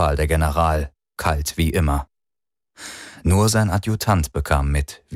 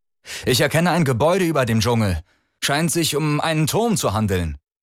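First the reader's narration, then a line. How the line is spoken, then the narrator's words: Call out. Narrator (German): rief der Maat hinter dem Periskop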